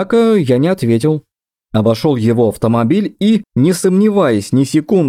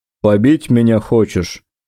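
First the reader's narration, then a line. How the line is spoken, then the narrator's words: Grim smirk. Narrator (Russian): мрачно усмехнулся идиот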